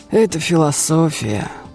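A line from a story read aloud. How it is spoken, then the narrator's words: Sighing. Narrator (Russian): вздохнул Достоевский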